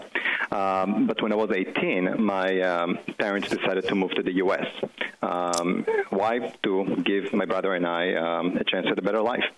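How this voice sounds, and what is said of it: Israeli accent. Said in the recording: “as you can tell by my accent, I wasn't born here. I grew up in Israel.”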